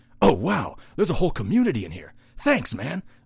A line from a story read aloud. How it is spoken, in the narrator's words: the creature said